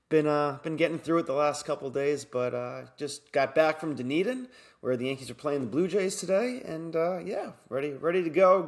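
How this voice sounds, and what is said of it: Scratchy, congested voice. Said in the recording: “my voice sounds a little grovelly or, you know, scratchy ... a little congested, a little bit of a scratchy throat”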